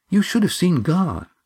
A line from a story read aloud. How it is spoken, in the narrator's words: said Eva eagerly